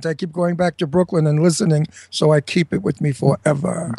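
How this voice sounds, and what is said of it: Brooklyn New York accent. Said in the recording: “I'm from Brooklyn, New York. Can't you tell? ... I'll never lose my accent.”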